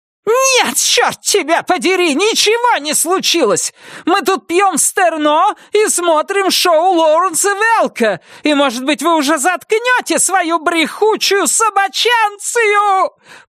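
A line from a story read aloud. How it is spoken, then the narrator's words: Shrieked. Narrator (Russian): Провизжала Вильма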